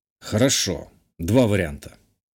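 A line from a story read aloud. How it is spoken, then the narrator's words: Tired agreement. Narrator (Russian): устало согласился наследник герцогства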